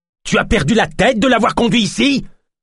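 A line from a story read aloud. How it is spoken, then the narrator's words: Healer shouting angrily. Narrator (French): vociféra le guérisseur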